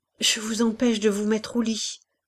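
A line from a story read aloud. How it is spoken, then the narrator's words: Stammered. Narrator (French): balbutia Hélène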